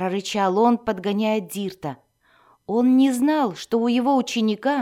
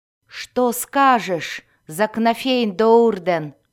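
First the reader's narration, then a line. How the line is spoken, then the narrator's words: Distant growl. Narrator (Russian): рычание Дзирта, доносившееся откуда-то издалека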